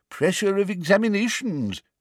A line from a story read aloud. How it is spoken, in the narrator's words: said the old wizard sympathetically